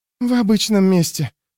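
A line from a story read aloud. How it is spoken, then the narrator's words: Breathed out. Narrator (Russian): выдохнула Рикке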